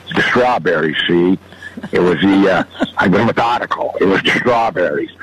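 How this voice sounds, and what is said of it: Imitates another person's voice. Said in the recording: “good Bogart impression”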